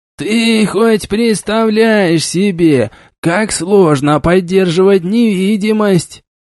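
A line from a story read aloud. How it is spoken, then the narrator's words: Grumbling. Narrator (Russian): Начал ворчать маг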